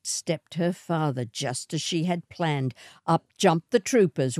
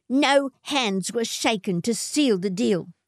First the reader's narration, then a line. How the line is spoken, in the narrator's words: spat Matilda